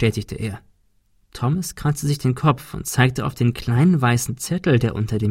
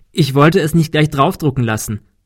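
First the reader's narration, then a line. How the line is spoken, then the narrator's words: Laughing. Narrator (German): lachte Kim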